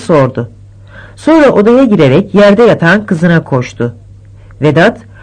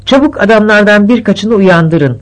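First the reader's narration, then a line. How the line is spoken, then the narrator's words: Plain. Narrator (Turkish): dedi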